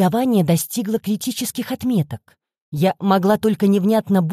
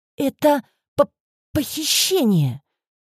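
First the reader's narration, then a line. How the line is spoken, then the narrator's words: Frightened stammer. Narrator (Russian): Заикаясь, выговорила я, вцепившись в сиденье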